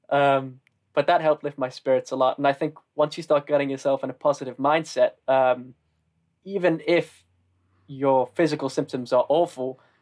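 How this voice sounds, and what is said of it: Northern English accent. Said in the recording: “I'm from the north and that my accent isn't exactly the most classic”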